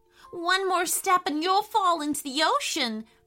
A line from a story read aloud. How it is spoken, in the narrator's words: cried Elliot with fear